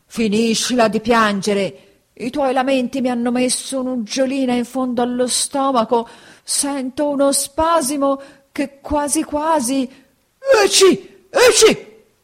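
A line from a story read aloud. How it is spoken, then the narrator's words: Gruff shouting man. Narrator (Italian): il burattinaio, seguitando a fare il burbero, gridò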